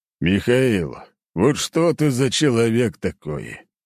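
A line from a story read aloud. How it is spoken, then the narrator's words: Old man, weary voice. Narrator (Russian): устало проговорил старик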